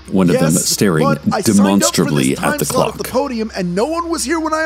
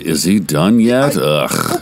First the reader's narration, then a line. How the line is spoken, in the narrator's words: one of them groaning aloud